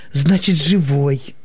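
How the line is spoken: Relieved sigh. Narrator (Russian): облегченно вздохнула она

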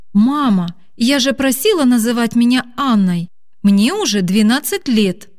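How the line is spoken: Irritated exclamation. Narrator (Russian): Раздраженно воскликнула Аня

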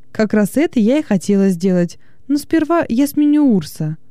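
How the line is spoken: Cheerful reply. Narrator (Russian): весело ответила

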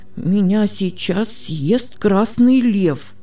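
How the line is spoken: Sick boy's frightened mumble. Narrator (Russian): перепуганным голосом бормотал больной мальчик

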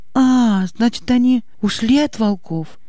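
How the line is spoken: Lively exclamation. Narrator (Russian): оживленно воскликнула Аня

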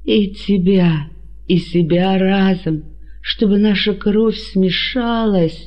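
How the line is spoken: Moaning. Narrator (Russian): Простонал он

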